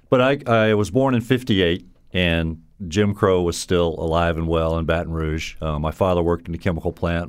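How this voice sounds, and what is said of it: Southern US accent. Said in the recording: “from your accent, we know you're not a Yankee, but a Southerner”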